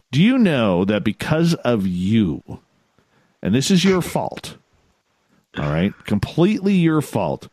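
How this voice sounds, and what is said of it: Canadian accent. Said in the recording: “my Canadian accent ... I have rarely heard anybody say a boot until you”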